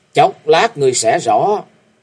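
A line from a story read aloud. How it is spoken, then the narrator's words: Cold. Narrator (Vietnamese): Long đường đường chủ lạnh lùng nói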